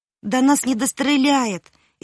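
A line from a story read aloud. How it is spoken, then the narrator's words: Sobbing yet soothing. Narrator (Russian): еще всхлипывая, но уже успокаивая своих друзей, сказал Колька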